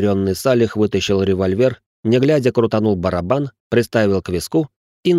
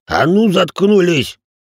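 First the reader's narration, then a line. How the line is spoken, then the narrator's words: Barked. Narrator (Russian): рявкнул Рэй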